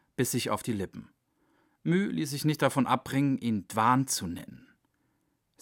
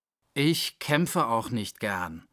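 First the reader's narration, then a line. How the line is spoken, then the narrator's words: Growling. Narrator (German): knurrte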